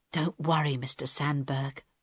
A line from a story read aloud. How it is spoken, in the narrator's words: Harold whispered